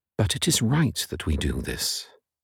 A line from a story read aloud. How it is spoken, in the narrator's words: gazed intently into his face, smiled, and quietly answered